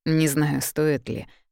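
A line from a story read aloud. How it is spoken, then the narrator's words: Gloomy reply. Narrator (Russian): мрачно отвечает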